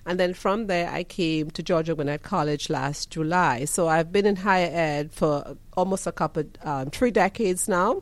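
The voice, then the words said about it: Trinidadian accent. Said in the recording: “you hear the accent ... beautiful ... accent ... I'm from Trinidad and Tobago”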